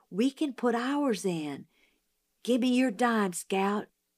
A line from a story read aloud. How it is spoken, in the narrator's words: Jim whispered